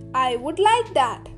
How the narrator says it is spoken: laughed the ghost

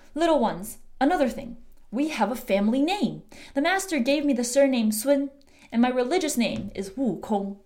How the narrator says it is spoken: Wukong recounted his journey happily, then said

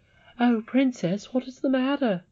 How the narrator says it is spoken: cried

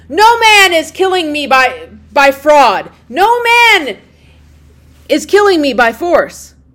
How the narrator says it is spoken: Polyphemus shouted to them from inside the cave

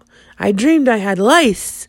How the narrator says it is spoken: Suddenly he blurted out

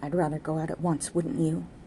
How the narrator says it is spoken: she whispered to Jude

